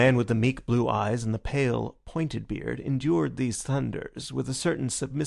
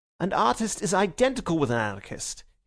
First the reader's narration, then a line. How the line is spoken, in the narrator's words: he cried